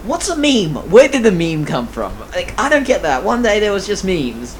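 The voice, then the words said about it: English accent. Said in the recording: “I picked up an English accent. Well done, me. It's very well done.”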